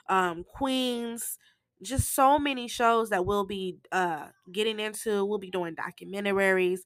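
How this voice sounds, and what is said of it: Hoarse, congested nasal voice. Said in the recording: “my voice sounds a little hoarse ... my nose is all plugged and, you know, sinus is draining. So that's why I sound like this.”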